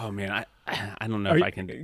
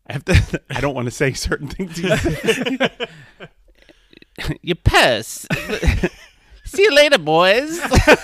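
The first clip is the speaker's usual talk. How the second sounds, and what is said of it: Imitates a comedy film character's voice. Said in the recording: “does the best impression that anyone ... Leslie Chow ... it was perfect”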